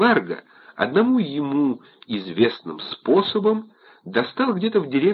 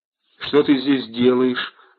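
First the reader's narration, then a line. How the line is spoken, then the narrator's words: Timid question. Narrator (Russian): робко спросил он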